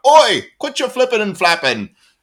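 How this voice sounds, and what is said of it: Poor put-on British accent. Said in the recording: “that was a really bad British accent ... I have no British accent. I can't even fake it.”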